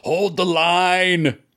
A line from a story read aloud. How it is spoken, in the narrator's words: the king shouts